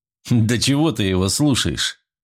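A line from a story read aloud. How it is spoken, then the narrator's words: Laughing. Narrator (Russian): рассмеялся Андрей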